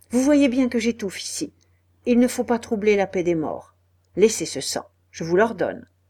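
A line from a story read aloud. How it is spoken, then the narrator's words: Curt. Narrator (French): lui dit-il d'une voix brève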